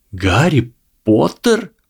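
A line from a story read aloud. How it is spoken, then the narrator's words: Surprised breathless exclamation. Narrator (Russian): удивленно выдохнул Драко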